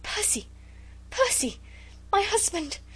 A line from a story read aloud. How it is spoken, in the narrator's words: she gasped, faint with the fullness of her joy